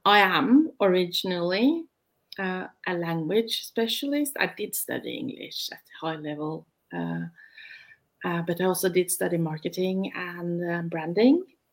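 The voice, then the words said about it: Norwegian-accented English. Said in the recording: “I'm the one with the accent, and I'm in Norway. I try to speak British”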